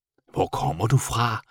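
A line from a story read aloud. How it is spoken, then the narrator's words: Whisper. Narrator (Danish): hviskede han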